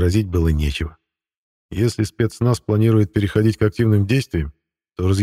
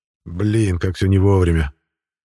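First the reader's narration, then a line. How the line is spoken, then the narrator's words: Grumbling. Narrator (Russian): пробурчал Эдик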